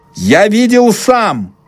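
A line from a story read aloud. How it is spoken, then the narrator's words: Shout. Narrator (Russian): выкрикнул он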